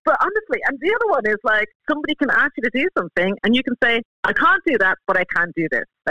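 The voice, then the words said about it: Irish accent. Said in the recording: “I detect an Irish accent there”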